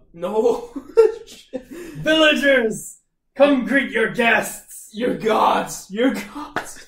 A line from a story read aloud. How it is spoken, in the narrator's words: Locke screams out